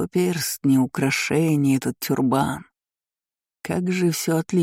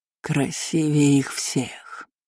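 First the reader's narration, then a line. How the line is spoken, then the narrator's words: Dreamy drawl. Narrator (Russian): мечтательно протянул Нархир, будто говорил о свежей партии самых дорогих рабов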